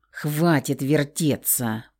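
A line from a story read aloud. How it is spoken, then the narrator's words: Growling. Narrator (Russian): прорычал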